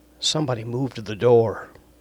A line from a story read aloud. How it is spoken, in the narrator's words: she quietly said